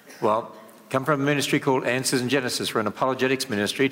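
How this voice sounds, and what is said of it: Australian accent. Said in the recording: “my accent... I originally come from Australia... with an Australian accent”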